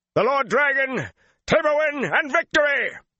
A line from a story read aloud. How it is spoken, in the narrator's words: he shouted, and the shout came from 500 throats